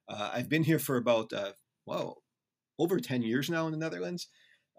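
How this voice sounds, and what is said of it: American accent. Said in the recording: “I'm an American. You can tell already by my accent.”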